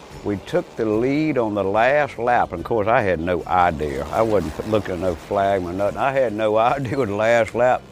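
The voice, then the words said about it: Strong regional accent. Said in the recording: “If the accent didn't give it away”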